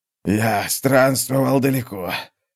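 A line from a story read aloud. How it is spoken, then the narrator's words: Hoarse wheeze. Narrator (Russian): хрипел Рантурвиан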